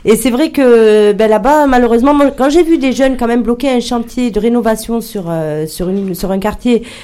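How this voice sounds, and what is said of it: Marseille French accent. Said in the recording (French): “je suis originaire de Marseille. Même mon accent me trahit, forcément.”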